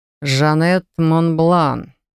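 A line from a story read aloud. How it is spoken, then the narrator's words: Savoring drawl, dragon. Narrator (Russian): повторил дракон, я бы даже сказала, протянул, настолько наслаждался звучанием моего имени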